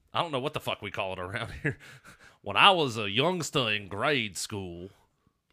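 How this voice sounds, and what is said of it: Fake Southern accent with Australian twang. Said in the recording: “You kind of put like an Australian twang on your fake Southern accent.”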